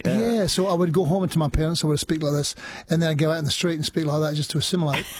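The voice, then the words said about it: Scottish accent. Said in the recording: “You sounded very Scottish these days. ... the Scottish accent was the one that remained”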